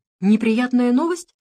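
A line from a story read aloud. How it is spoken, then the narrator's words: Asking. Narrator (Russian): спросила Софи Ментер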